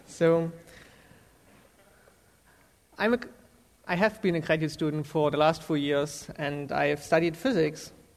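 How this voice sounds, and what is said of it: German accent. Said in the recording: “I'm from Germany, so I have a weird accent.”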